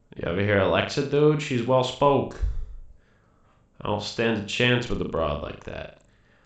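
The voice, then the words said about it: Robot character with Boston accent. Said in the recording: “a robot from Boston with a Boston accent”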